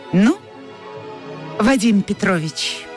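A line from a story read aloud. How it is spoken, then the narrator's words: Almost cheerful. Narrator (Russian): Анфиса сказала почти весело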